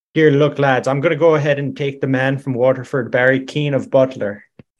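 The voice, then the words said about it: Put-on Irish accent. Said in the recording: “You got quite an advantage on that accent, though”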